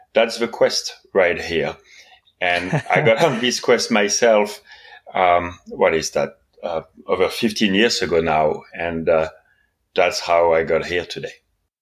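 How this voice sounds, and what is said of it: Slightly non-British accent. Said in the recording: “I don't think you're from the UK. I think you've got a slightly different accent.”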